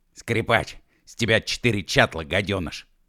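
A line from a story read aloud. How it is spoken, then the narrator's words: Hiss. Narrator (Russian): прошипел Уэв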